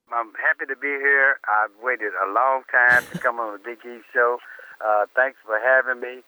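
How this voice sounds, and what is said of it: Congested, sore-throated voice. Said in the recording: “I'm a little bit under the weather. I have a cold, sore throat. So kind of bear with me if I break up every now and then”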